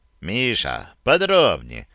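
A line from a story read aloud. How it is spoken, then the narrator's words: Calm question. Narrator (Russian): Ефим спокойно спросил его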